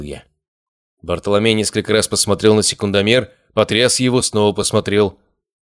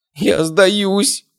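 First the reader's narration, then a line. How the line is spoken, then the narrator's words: Moaning. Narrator (Russian): простонала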